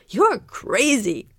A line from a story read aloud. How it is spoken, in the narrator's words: Mike groaned